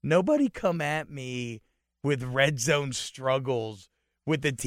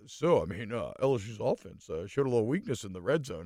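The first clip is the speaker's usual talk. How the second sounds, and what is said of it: Imitates another person's voice. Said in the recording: “That's a good and impression like, of him.”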